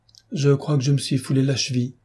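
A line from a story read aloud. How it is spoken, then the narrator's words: Plain. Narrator (French): dit-elle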